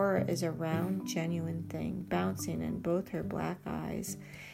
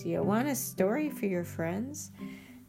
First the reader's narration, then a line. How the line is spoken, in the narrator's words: Fila laughs